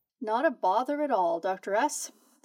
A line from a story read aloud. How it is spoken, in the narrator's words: chuckles warmly